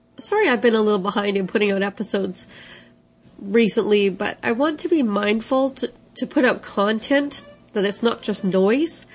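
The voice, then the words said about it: Congested voice with a cold. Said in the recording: “as you can hear in my voice, a cold flu extravaganza ... some allergies thrown in ... my lovely cold voice”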